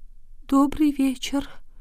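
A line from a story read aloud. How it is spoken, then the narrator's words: Barely audible miserable whisper. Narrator (Russian): Несчастная четверка еле слышно прошептала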